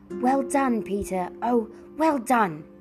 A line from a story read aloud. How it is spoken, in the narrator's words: shouted Edmund as he saw Miraz reel back a whole pace and a half